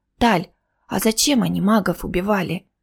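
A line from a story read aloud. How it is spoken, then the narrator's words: Quiet asking. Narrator (Russian): тихонько спросила она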